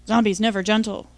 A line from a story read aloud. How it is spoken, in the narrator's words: he grunted